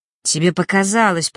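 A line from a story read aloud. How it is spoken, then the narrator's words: Growled. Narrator (Russian): прорычал он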